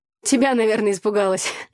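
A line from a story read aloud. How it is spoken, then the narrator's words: Laughing. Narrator (Russian): засмеялась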